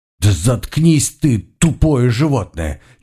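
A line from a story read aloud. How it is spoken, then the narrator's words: Hissing, near tears. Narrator (Russian): чуть не плача прошипел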